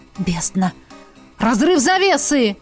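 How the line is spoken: Rector exclaiming. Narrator (Russian): воскликнула ректор

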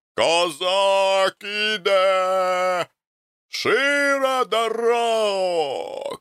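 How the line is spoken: Shouting from the street. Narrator (Russian): кричал голос на улице

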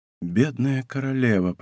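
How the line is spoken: Whispered. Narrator (Russian): прошептал Атос

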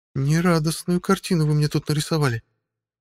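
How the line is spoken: Sigh. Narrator (Russian): вздохнула Ольга

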